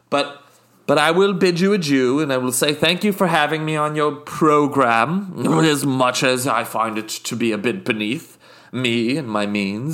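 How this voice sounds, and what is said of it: Put-on posh British accent. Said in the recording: “I'm also from the Isle of Jersey. So sometimes my British accent slips into a bit of Jersey. But it's like a regional dialect.”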